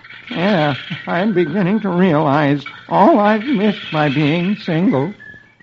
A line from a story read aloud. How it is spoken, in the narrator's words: Eddie replies mournfully